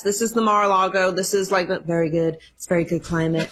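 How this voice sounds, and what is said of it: Imitates another person's voice. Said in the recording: “are you working on a Trump impersonation? ... That was pretty good. ... It was not very good”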